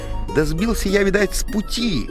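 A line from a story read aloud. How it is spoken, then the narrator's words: Plain. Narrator (Russian): сказал папаня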